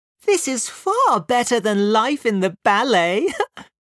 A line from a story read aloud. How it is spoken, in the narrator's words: laughed